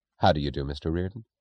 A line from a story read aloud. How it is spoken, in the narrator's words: the quietly natural